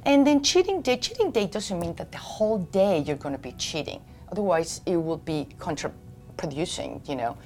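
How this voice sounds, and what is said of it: Slight foreign accent. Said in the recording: “I have a little accent”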